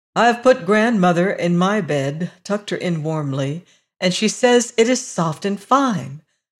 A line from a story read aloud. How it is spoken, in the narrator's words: laughed the girl